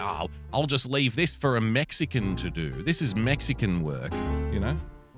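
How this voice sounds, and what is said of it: Terrible put-on accent. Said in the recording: “terrible accent”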